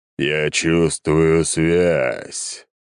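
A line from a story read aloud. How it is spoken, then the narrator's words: Deep bass creature voice. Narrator (Russian): пробасило существо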